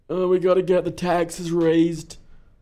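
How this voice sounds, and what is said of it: Bill Clinton impression, sounding Welsh. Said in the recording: “you're doing fucking Clinton? ... It sounded Welsh, to be perfectly honest.”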